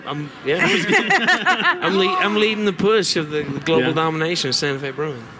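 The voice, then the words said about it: Kentucky accent. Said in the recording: “You have an accent. Like is it Kentucky? ... I originally grew up in Kentucky.”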